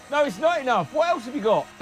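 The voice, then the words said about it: Shouting loudly. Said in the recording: “Who is that that's shouting out? ... you keep shouting out.”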